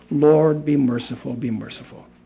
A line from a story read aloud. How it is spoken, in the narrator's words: Michael … blood running from his mouth, and he was softly praying with his muted voice